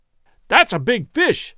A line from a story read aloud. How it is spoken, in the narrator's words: exclaimed excitedly